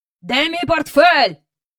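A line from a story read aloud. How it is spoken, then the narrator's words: Shouted. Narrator (Ukrainian): закричав містер Бенкс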